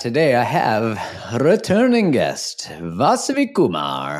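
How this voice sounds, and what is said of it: British-to-Indian accent, rolled R's. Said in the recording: “That was kind of like British moving into accent ... It's like slightly Indian with the rolling of the R's.”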